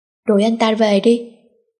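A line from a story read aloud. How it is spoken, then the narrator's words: Cold. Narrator (Vietnamese): Lạnh lùng buông ra câu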